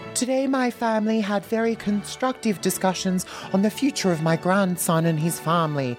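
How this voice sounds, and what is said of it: Bad British accent impression of the Queen. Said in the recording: “How's this as a British accent? It's really bad, isn't it?”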